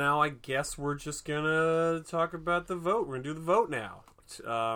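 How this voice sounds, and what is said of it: Usual voice. Nothing is said of it.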